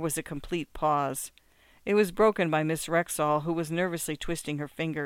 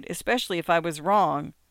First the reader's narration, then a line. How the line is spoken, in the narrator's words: she cried